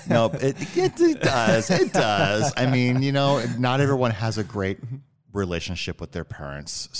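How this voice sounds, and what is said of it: Rich, smooth radio-style voice. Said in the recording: “You have an amazing voice. ... You have a radio voice.”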